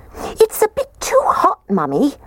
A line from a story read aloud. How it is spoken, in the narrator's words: The little baby bear squeaked